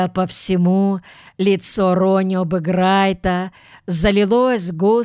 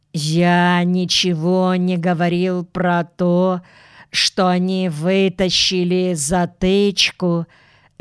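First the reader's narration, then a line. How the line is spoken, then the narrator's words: Slow. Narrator (Russian): медленно повторил он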